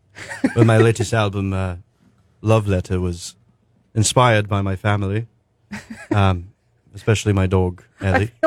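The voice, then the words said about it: Put-on English accent. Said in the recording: “a really bad English accent ... I feel like you sound like Johnny Depp right now.”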